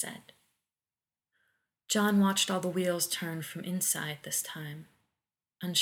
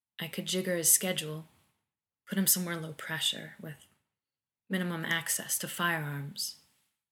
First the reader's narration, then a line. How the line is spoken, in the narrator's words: said quietly